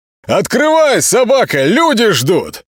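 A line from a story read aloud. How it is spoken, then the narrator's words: Sharp loud yell. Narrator (Russian): Молчан заорал так резко и громко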